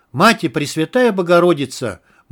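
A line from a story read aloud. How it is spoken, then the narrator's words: Loud desperate prayer. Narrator (Russian): молился он громко и отчаянно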